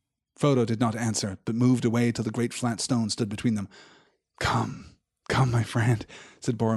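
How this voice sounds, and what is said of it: Usual voice. Nothing is said of it.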